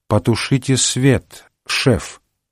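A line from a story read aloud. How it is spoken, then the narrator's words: Slow, deliberate enunciation. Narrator (Russian): сказала она, медленно выговаривая буквы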